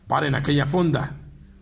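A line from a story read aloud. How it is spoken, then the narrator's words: Growl. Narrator (Spanish): gruñó el gobernador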